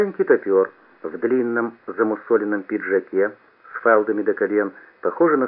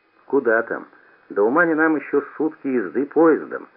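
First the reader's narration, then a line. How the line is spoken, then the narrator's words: Exclamation. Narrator (Russian): воскликнул я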